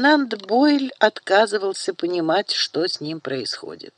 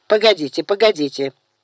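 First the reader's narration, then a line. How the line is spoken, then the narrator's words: Irritated. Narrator (Russian): Раздраженно затряс головой Даниэль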